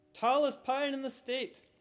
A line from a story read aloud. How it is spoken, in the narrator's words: Stu yelled